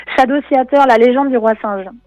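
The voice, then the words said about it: Jokingly exaggerated English accent. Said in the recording (French): “avec mon super accent anglais”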